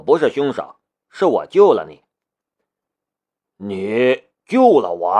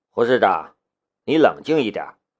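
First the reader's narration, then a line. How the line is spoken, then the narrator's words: Deep grave. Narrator (Chinese): 夏雷沉声说道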